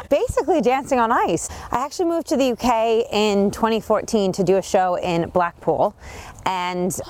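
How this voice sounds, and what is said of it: Bostonian American accent. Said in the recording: “That accent... It's not a Hertfordshire accent... It is a Bostonian American accent.”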